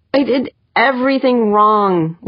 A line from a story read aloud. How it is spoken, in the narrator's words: Wanderley moaned